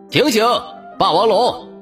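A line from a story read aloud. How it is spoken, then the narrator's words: Shouting through a megaphone. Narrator (Chinese): 剑龙警官拧开了大喇叭，喊道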